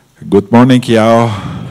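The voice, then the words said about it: Attempted Texas accent. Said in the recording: “I'm practicing my Texas accent.”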